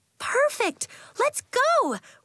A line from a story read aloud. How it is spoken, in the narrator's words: Willa cried